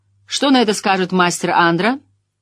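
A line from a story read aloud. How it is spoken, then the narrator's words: Strict question, smiling. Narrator (Russian): Морейн улыбнулась, но все равно строго спросила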